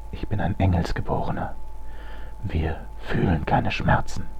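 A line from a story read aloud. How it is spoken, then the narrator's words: Whispered. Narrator (German): flüsterte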